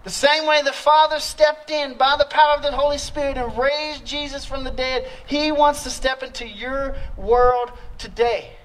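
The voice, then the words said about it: Louisiana Southern accent. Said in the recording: “do I still have the accent? Have I lost it? ... why does that dude sound like that? That's why. I'm from Louisiana ... it's coming out.”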